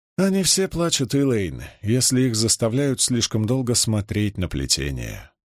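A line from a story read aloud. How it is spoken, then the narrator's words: Tired, slightly sad. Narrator (Russian): сказала она устало и с ноткой печали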